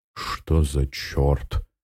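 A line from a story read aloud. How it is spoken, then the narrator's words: Astonished mutter. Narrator (Russian): изумленно пробормотал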